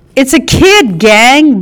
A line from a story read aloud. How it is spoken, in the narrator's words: Blue cried